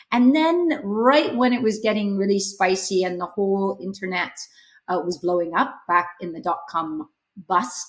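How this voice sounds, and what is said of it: Canadian accent. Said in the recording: “you might hear from my accent, I'm not from the UK, I'm from Canada”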